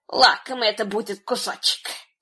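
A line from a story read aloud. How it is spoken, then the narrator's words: Muttered to herself. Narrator (Russian): пробормотала про себя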